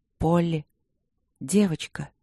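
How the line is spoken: Hesitant calling. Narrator (Russian): неуверенно позвала она

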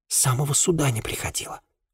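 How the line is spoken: Girl's whisper. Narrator (Russian): шепнула девушка

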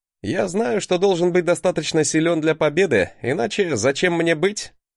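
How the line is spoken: Laughing. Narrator (Russian): Рассмеялся на это Альфгейр

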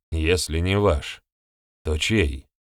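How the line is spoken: Slightly hoarse young man asking. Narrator (Russian): Чуть хрипло поинтересовался парень

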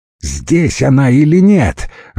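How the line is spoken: Irritated shout. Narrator (Russian): раздраженно крикнул водила

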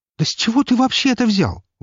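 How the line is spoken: Exclaiming. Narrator (Russian): воскликнула она

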